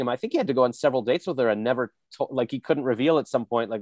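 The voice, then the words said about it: Slips into a South African accent. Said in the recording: “I don't know why I just went South African there.”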